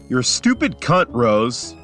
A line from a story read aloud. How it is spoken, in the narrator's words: he barks, mid-rant